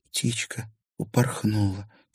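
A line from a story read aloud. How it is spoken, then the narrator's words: Quiet. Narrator (Russian): тихо произнесла Дагни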